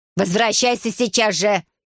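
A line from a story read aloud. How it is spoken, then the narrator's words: Stepmother's angry bark. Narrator (Russian): рявкнула мачеха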